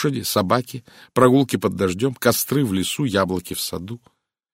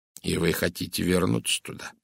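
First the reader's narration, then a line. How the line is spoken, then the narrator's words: Gentle question. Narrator (Russian): мягко спросил Пуаро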